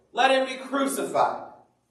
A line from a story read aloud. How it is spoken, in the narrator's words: they shouted all the more